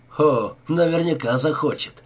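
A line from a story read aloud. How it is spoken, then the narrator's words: Cheerful. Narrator (Russian): весело ответил Гиллис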